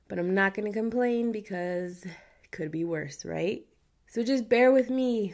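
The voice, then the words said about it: Raspy voice. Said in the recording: “Sorry for the raspy voice, but I am getting over a cold.”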